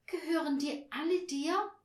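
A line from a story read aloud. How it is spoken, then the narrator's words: Calling with deep sigh. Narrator (German): rief Barbie und seufzte tief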